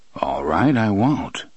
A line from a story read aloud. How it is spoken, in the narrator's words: Roland murmured